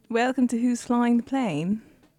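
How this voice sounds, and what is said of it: Mediocre put-on British accent. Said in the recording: “How's your British accent? ... there are people that are better than me. And okay. There are definitely people that are worse than me. ... I'm solidly in the middle of the pack.”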